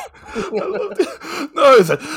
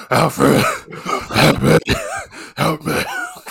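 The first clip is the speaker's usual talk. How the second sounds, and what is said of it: Imitates Batman's voice. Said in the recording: “his Batman voice”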